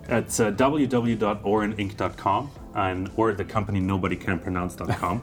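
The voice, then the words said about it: Mild German accent. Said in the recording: “your not so thick German accent”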